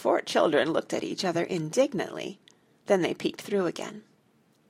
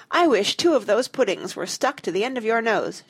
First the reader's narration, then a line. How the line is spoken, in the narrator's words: she cried